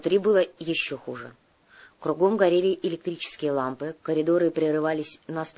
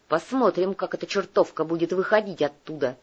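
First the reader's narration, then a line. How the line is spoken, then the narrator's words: Grumbling. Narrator (Russian): проворчал Делье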